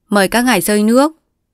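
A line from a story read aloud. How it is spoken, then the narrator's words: Smiling, polite. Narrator (Vietnamese): Mỉm cười, ông bảo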